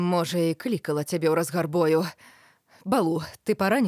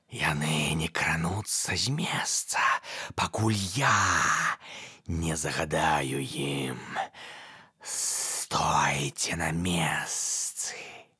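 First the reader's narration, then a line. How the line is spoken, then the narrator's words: Hissing. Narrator (Belarusian): сыкнуў Каа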